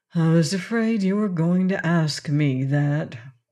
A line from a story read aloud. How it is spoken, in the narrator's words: replied Shaggy in a sad tone